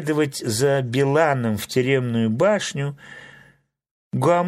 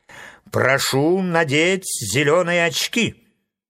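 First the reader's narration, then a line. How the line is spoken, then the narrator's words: Stern. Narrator (Russian): строго сказал Фарамант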